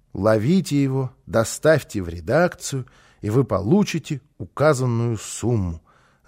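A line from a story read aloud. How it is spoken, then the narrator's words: Reading aloud, then sighing. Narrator (Russian): закончил он чтение и вздохнул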